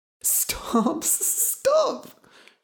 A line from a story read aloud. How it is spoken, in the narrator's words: she cried